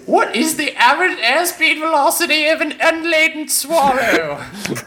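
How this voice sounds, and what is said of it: Exaggerated British accent, Tim the Enchanter. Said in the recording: “a horrible British accent ... That was my best Tim the Enchanter”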